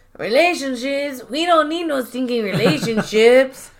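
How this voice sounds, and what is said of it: Put-on Mexican accent. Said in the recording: “in a Mexican accent”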